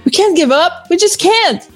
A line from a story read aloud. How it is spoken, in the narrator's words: Toaster exclaimed